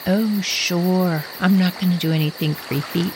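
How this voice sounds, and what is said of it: Creepy, sinister voice. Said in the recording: “in my creepiest voice.”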